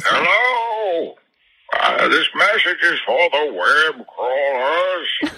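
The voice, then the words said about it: Performs a Bane character voice. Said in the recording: “here's ... voice ... It's I, Bane ... impersonations of me”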